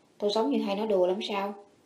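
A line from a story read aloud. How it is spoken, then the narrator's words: Cold retort. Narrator (Vietnamese): Niếp Hành Phong lạnh lùng hỏi lại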